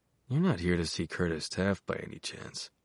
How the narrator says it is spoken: Billy asked, his voice sly dog low

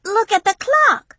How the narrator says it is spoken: Destiny squealed with excitement

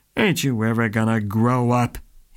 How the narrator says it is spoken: He grumbled

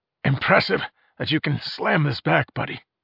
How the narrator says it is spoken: croaked

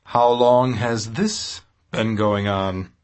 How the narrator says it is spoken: he asked wearily

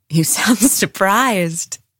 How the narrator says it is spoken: Esme laughed

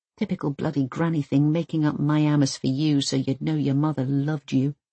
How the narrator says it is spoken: she mumbles

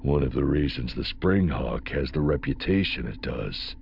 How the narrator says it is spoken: Afpria added under his breath

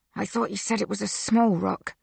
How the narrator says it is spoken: Mikhail whispers through clenched teeth

